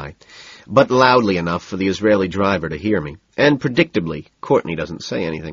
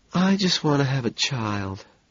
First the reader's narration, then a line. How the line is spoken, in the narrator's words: she says softly